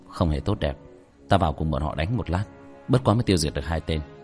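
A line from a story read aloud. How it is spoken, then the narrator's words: Soft light voice. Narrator (Vietnamese): Tiểu thất nhẹ nhàng thở một hơi, nhẹ giọng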